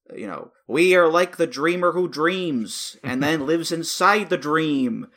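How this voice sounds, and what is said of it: David Lynch impression. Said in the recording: “That's a pretty good Lynch impression.”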